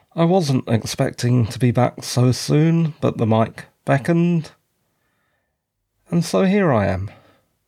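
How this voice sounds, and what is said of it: Tired, exhausted-sounding voice. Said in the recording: “so tired, exhausted ... you can probably tell from my voice”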